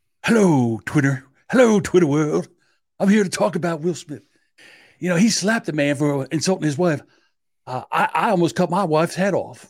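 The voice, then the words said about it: Imitates another person's voice. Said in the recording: “I'm just doing my best OJ imitation.”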